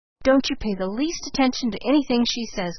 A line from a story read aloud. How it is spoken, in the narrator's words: cried Polly